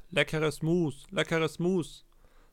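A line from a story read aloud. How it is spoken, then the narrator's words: Peasant woman calling out. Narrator (German): eine Bauersfrau rief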